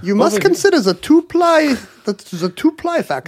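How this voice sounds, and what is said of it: Einstein accent impression. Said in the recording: “In an Einstein accent?”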